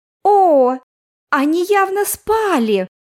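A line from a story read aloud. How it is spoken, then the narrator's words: Exclamation. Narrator (Russian): воскликнула Оливия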